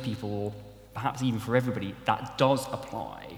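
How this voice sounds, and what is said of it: Usual voice. Nothing is said of it.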